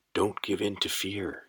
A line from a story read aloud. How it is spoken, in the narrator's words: whispered